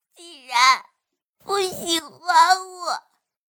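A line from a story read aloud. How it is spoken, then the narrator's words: Crying. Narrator (Chinese): 玉儿 哭着问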